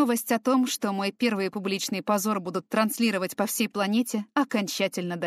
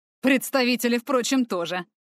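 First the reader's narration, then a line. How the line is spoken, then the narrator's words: Wry snort. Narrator (Russian): хмыкнул ксенофил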